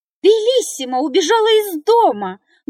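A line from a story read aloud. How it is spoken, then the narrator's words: Loud scream. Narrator (Russian): громко закричала она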